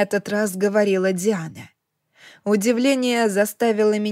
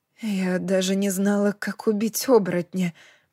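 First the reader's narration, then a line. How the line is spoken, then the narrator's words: Muttered. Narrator (Russian): пробормотала я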